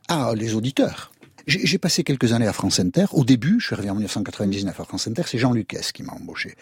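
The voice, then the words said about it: Noticeable regional accent. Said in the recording (French): “avec votre accent ... avec l'accent que vous avez ... malgré mon accent, voire pour mon accent”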